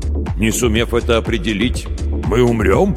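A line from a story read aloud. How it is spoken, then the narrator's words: Snorting. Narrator (Russian): Малк хмыкнул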